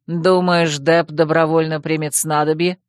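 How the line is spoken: Skeptical snort. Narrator (Russian): хмыкнул Одан

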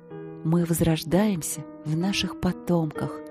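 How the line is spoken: Fading voice. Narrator (Russian): говорила она тускнеющим голосом

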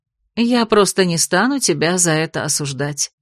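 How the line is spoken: Soft reply. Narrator (Russian): мягко ответила Бетриса

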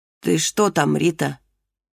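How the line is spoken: Weak, muffled through wall. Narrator (Russian): слабым голосом спросила мать из-за стены

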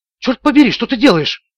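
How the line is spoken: Exclaiming. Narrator (Russian): воскликнула Харпер

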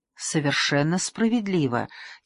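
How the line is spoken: Quiet. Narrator (Russian): тихо сказал Бекингем

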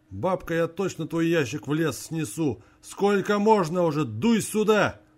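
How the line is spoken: Old man shouting. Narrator (Russian): снова закричал дед

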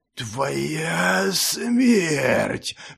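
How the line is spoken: Vicious monster hiss. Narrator (Russian): злобно прошипело чудовище

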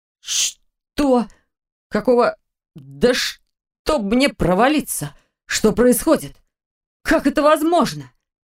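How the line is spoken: Strained, forced out. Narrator (Russian): Наконец сумел выдавить он

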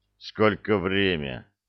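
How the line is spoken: Big guy mumbling. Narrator (Russian): пробурчал слоняра

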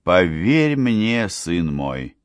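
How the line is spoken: Persuasive objection. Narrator (Russian): возразила эрцгерцогиня убедительным тоном

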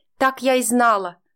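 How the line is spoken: Triumphant exclamation. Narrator (Russian): торжествующе воскликнула Тамара

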